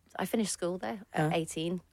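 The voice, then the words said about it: Slips into an Australian accent. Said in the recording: “I just slipped into an Australian accent then”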